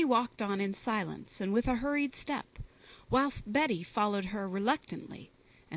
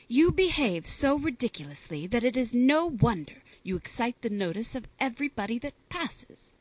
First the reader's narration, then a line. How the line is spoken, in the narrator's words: replied Fanny in an angry tone